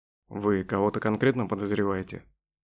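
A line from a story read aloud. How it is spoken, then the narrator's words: Plain. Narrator (Russian): спросил Петраускас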